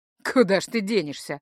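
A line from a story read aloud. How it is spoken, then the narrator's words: Chuckling. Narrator (Russian): хохотнул тот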